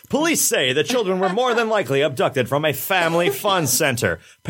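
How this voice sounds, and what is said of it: Mock news reporter voice. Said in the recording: “in my reporter voice”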